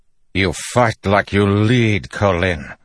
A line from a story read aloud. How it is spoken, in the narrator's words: he growled